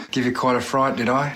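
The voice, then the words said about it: Australian-accented dog character. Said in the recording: “a guy in a big dog suit speaking with this Australian accent”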